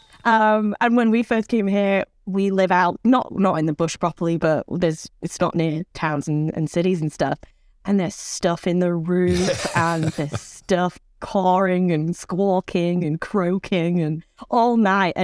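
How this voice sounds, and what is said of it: Non-Australian accent. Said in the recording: “I am not a full Australian, 50%, but not full... I can't get rid of this accent”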